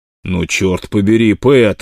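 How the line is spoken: Horrified exclamation. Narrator (Russian): в ужасе воскликнул Стьюбинер

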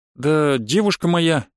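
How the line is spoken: Strained, awkward. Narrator (Russian): выдавил я и почему-то почувствовал себя неловко

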